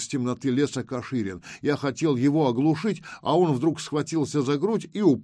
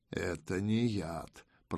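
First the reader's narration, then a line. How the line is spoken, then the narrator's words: Muttering. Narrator (Russian): пробормотал Панкрат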